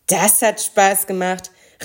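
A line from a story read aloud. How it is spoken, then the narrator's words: Thundering voice. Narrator (German): rief er mit donnernder Stimme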